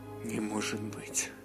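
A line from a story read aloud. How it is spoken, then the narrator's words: Muffled horrified mutter. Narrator (Russian): Пробормотал он, закрыв рот ладони от ужаса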